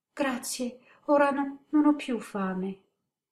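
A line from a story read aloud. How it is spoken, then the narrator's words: Child's low stammer. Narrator (Italian): balbettò a mezza voce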